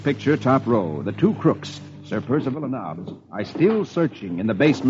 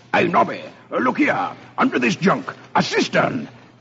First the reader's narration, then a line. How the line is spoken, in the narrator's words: Sir Percival exclaims